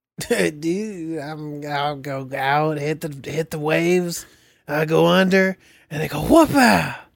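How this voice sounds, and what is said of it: Laid-back surfer dude voice. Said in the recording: “your best surfer voice”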